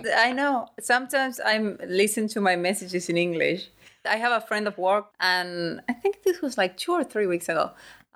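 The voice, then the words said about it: Noticeable foreign accent in English. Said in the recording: “your accent was quite palpable. I mean, I have no problem understanding you, but you definitely have an accent.”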